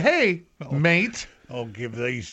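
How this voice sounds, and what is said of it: Put-on Australian accent. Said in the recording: “The Aussie accent.”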